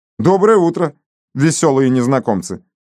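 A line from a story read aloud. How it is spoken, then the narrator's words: Shout in English. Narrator (Russian): крикнул им Фрэнсис по-английски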